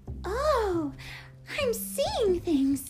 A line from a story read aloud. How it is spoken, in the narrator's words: squeaked Annie suddenly